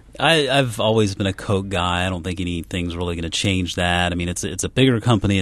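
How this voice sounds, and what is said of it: Southern Georgian accent. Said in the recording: “You hear that accent? That's the sound of a native Georgian. ... Good Southern boy.”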